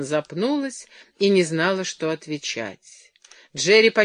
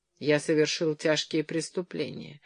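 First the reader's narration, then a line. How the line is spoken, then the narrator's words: Gloomy. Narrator (Russian): продолжал Джерри мрачно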